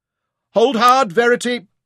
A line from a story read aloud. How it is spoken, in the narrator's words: Mansair shouted encouragement